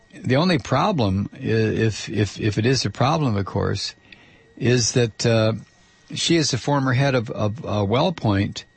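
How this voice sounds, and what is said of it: Strained, failing voice. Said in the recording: “I'm losing my voice. I mean, just absolutely I'm losing my voice... your voice is failing”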